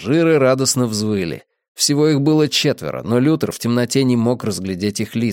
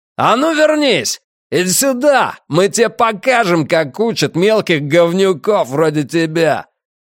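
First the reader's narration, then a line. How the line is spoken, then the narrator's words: Shouted. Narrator (Russian): тот, что был за рулем, крикнул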